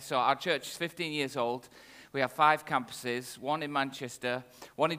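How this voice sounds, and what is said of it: Northern English accent. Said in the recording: “My accent is very clearly from the north of England”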